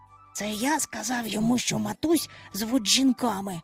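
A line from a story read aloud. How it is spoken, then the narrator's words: Whispered. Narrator (Ukrainian): шепнув Майкл до Чубчика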